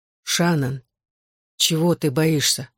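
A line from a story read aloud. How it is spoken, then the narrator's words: Outwardly calm, suppressed fury. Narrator (Russian): спросил я, удивляясь, как спокойно звучит мой голос, когда внутри я готов был взорваться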